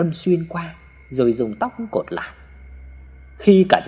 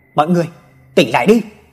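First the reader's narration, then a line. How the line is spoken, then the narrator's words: Father shouting. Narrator (Vietnamese): tiếng hét của ba mình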